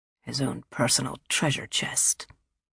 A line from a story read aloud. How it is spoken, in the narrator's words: Maroney said in a low voice